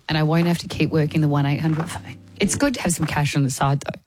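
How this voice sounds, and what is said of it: Damaged, strained-sounding voice. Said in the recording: “my voice hasn't been right for some time. It is in a very bad way”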